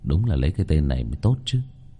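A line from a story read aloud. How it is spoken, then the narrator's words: Muttered. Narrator (Vietnamese): Vương Bình lẩm bẩm nói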